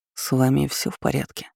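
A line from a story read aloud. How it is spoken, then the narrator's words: Low irritated voice. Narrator (Russian): поинтересовался незнакомец низким голосом с явным раздражением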